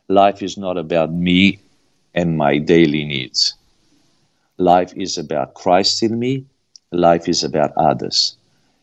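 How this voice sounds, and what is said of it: Romanian accent. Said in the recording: “listeners can hear a accent when you are speaking, and it's a Romanian accent.”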